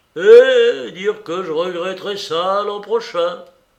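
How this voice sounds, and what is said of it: Lamenting, comically self-pitying tone. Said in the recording (French): “accent lamentable et comique, une prévoyance de vieux beaux qui se pleurent”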